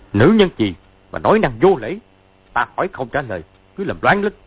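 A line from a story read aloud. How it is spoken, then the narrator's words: Angry. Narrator (Vietnamese): Sứ Mạnh Tiệp giận dữ nói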